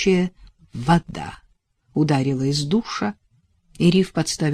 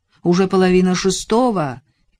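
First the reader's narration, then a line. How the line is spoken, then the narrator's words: Shout from bathroom. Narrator (Russian): крикнул он из ванной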